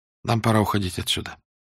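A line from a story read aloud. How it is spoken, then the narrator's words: Barely audible, very quiet. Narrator (Russian): сказала она так тихо, что Корсо едва расслышал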